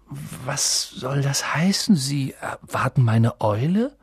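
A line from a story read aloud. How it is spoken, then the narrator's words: Stammering. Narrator (German): stammelte er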